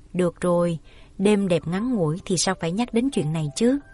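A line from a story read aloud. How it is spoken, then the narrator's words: Soft, tearful, smiling. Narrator (Vietnamese): Nước mắt Yến Uyển chưa khô mà nhẹ giọng dạ một tiếng, mỉm cười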